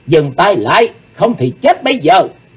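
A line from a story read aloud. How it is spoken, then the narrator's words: Loud shout. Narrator (Vietnamese): Chí Tôn hét lớn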